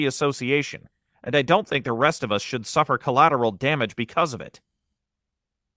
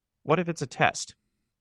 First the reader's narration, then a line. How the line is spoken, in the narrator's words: He said quietly